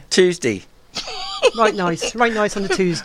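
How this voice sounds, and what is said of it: Put-on Norfolk accent. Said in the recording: “say Tuesday in a Norfolk accent”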